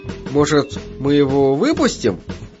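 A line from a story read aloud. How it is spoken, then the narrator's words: Hesitant. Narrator (Russian): неуверенно произнес он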